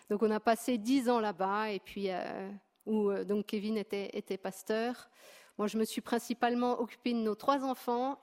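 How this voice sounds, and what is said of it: Slight regional French accent. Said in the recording (French): “Peut-être que vous entendrez un peu mon accent, parce que je suis native”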